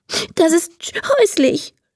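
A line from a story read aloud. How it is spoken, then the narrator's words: Sobbing. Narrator (German): schluchzt Emma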